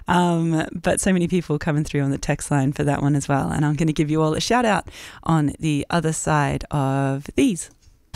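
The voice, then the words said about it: Slightly croaky voice. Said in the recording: “had me belting it out in the studio this morning, which I think might be why my voice has gone a little croaky now”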